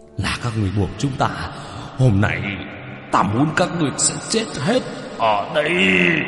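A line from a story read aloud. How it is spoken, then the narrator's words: Furious roar. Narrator (Vietnamese): Hai con quỷ kia vô cùng giận dữ gầm thét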